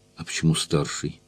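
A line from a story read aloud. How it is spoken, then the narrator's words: Tired question. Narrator (Russian): спросил я устало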